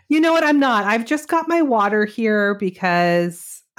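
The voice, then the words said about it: Congested, sore-throated voice. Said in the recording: “I have a little bit of a sore throat and congestion going on.”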